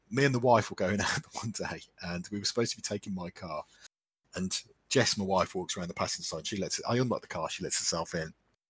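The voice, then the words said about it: English Midlands accent. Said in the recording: “I'm in the Midlands, which you can probably tell from my accent”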